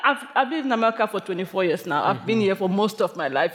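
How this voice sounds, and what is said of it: Foreign-sounding accent. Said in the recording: “People think I just came because they hear my accent”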